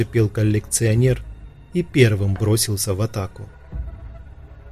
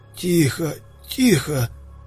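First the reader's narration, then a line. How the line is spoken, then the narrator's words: Groaning in pain. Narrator (Russian): застонал он от боли в ребрах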